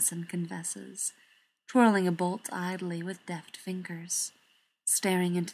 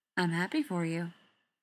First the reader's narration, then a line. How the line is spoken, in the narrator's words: Styles says